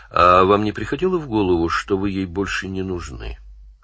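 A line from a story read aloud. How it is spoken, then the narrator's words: Plain. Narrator (Russian): спросил Данил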